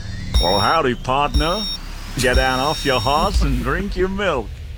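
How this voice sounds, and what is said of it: Cowboy voice. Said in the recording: “your best cowboy impression? ... what you gave me was a cowboy impression”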